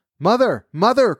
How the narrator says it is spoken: cried Jack

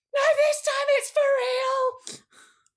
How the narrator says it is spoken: a woman with a big feathered hat screams

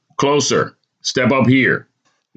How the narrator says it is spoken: the judge barks

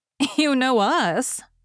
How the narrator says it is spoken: began Jo, then laughed and stopped

